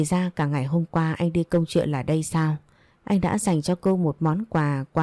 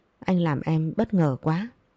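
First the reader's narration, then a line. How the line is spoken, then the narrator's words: Choked with emotion. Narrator (Vietnamese): Hương Ly nghẹn ngào nói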